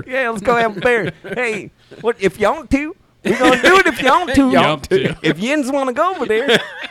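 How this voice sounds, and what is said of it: Put-on hillbilly accent. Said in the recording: “I talk to somebody with a like hillbilly accent ... that's when I start doing it ... Nobody talks like that.”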